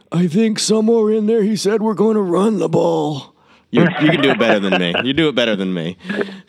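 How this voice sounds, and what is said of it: Imitates another person's voice. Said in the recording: “my horrible imitation of Trent Baalke ... that was pretty good”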